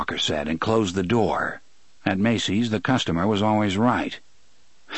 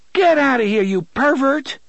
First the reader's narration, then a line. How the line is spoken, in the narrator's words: the woman in the linen skirt and the bra cried